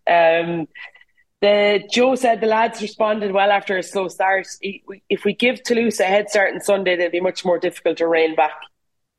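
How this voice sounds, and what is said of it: Irish Waterford/Limerick accent. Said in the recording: “My little Waterford / Limerick accent.”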